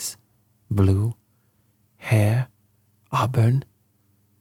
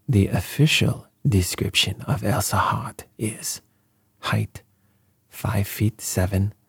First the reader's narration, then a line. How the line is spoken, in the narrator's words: paused and then added softly